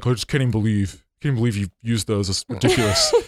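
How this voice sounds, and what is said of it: Imitates another person's voice. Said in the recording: “That's a good me impression”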